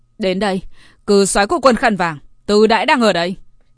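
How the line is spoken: Angry shout. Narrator (Vietnamese): Liêu Nghiêu phẫn nộ nhìn về phía trước hét lên

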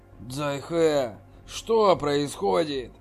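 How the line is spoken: Low-voiced question. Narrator (Russian): спросил низким голосом

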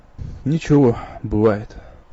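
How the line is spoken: Sigh. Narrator (Russian): вздохнул Иктур

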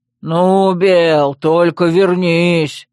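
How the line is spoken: Furious, through closed door. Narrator (Russian): Внятно процедил взбешенный гном из-за закрытой двери

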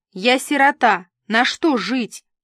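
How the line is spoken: Screaming. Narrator (Russian): та заорала

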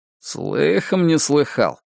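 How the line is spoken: Grumbling. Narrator (Russian): проворчал Гарри

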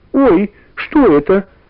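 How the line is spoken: Frightened shout. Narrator (Russian): испуганно крикнула Варя

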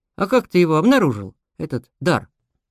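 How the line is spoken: Skeptical question. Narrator (Russian): Я недоверчиво хмыкнул, а потом спросил

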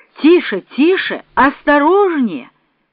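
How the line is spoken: Shouting while riding. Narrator (Russian): кричал Сергей Николаевич

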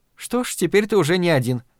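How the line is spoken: Almost cheerful. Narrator (Russian): почти весело заметила Надин

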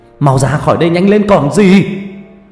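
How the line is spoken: Yelling. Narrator (Vietnamese): Ông Ninh quay lại gào lên

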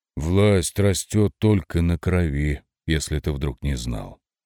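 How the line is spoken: Sighing king. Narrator (Russian): вздохнул король

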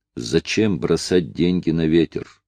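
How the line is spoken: Plain. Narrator (Russian): сказал кожаный чулок

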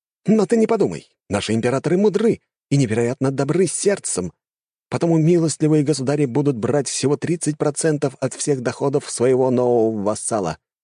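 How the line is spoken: Exclaimed. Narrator (Russian): воскликнул первый

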